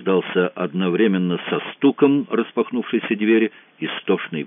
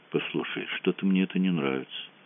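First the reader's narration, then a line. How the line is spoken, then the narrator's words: Quiet. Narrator (Russian): тихо сказал Мазур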